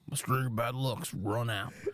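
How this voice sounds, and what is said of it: Imitates another person's voice. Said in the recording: “that's such a good Dustin impression”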